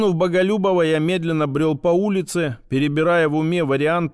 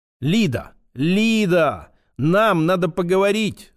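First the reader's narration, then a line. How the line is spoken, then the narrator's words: Loud shout. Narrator (Russian): закричал я на весь дом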